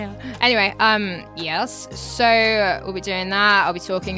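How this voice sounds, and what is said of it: Usual voice. Nothing is said of it.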